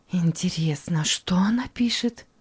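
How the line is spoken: Excited, anxious. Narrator (Russian): взволнованно проговорила мама

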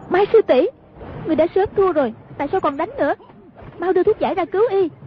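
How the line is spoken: Shouted. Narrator (Vietnamese): Hoàng Dung quát lên

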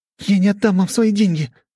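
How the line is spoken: Shouting. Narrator (Russian): закричала Лиза

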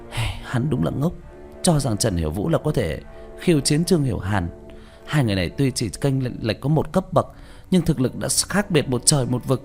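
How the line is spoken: Sighing. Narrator (Vietnamese): Diệu Tâm thở dài

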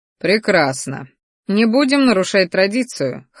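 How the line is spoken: Snorted. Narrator (Russian): хмыкнул кореглазый

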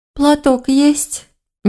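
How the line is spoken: Sniffling, sad sigh. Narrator (Russian): Нежить шмыгнула носом и печально вздохнула

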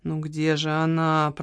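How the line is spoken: Muttered in undertone. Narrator (Russian): пробормотал вполголоса

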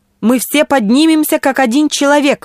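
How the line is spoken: Exclaimed. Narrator (Russian): воскликнул мистер Асмундсен

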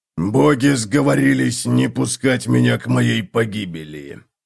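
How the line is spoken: Hoarse rasp. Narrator (Russian): прохрипел он

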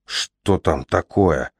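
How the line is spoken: Frightened whisper. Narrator (Russian): испуганно прошептал Джаспер

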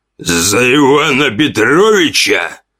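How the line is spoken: Roar. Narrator (Russian): проревел

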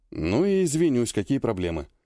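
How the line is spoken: Grumbling. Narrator (Russian): буркнул Вяземский

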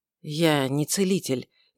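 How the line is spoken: Quiet, head down. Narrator (Russian): не поднимая головы, тихо сказал

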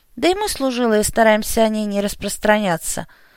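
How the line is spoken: Sighing recollection. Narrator (Russian): вздохнув, вспомнил

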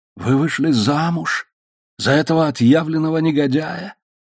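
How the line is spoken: Voiceless, soundless question. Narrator (Russian): спросил он беззвучным голосом

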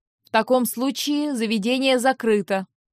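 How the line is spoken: Loud. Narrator (Russian): громко произнес Астагир

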